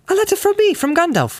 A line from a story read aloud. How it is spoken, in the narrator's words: cried Frodo